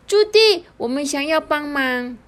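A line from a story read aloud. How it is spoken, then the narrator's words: Calling out. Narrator (Chinese): 小木就喊着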